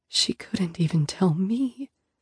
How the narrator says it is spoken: whisper back

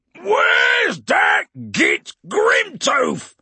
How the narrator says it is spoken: he bellowed

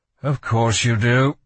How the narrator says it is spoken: Kel sighed

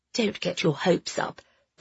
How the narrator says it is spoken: said in a low voice

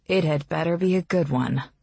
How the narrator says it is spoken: Calla says grimly

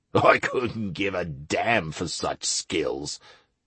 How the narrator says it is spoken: muttered Plinto

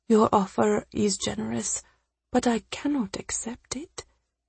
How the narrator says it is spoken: Nima whispered

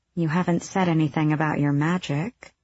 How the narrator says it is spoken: she murmured

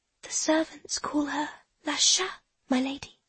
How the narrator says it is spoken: she whispers

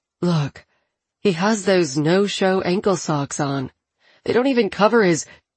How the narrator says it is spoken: sighs and says

